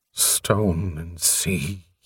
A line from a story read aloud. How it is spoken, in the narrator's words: moaned